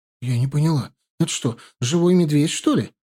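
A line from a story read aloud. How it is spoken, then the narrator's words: Frightened question, wife. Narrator (Russian): испуганно спросила его жена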